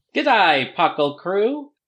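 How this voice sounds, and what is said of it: Weak put-on Australian accent. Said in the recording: “my Australian accent... I cannot do Australian accents”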